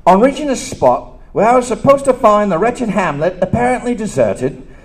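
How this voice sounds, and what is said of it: Put-on Cockney accent. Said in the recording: “my Cockney accent”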